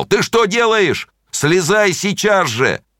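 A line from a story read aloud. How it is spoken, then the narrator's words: Loud frightened shout. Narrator (Russian): он испугался, и он громко закричал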